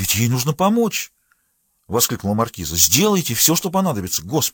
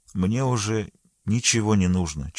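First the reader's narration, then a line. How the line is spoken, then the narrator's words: Barely audible reply. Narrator (Russian): чуть слышно ответила Елена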